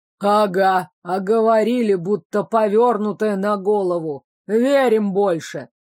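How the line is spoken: Grumbling. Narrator (Russian): проворчал другой

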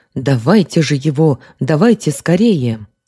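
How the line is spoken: Excited exclamation. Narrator (Russian): воскликнул он, возбужденно

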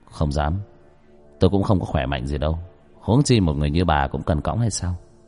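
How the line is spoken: Cold young man. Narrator (Vietnamese): Người thanh niên nói bằng giọng lạnh lùng

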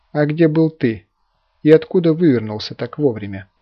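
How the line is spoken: Calm, restrained reply. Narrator (Russian): спокойно ответила она, едва сдержавшись

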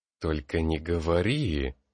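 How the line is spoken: Hissed. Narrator (Russian): прошипел

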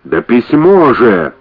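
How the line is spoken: Yelling. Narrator (Russian): заорал Джеффри

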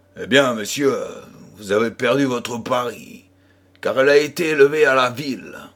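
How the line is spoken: Gruff merchant. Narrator (French): dit notre marchand d'un ton bourru

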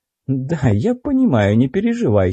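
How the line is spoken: Giggling. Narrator (Russian): хихикнула Лана

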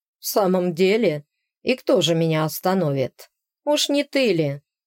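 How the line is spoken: Mocking short laugh. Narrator (Russian): хохотнул блондин

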